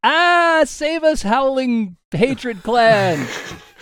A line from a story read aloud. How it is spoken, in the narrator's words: I'm going to run around the corner screaming